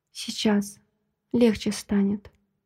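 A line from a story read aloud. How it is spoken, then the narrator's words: Quiet soothing murmur. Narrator (Russian): Приговариваю тихо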